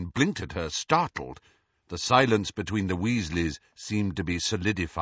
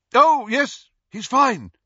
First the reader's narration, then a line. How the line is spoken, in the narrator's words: Lupin said loudly